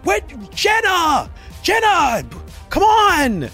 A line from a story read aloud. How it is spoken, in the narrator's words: yelling out